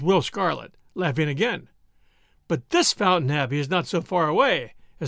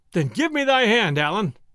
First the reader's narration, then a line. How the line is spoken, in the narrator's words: cried Robin